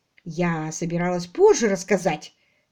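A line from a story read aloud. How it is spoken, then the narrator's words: Angry remark. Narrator (Russian): сердито заметила Дейзи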